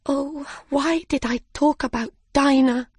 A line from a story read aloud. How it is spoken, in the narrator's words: cried Alice